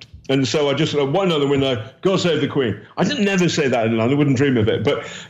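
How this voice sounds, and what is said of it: British accent. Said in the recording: “the moment the Ukrainian police on the checkpoints hear a British accent, it's okay.”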